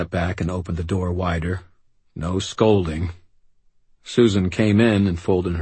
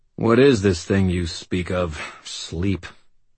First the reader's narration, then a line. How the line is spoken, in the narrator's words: sighed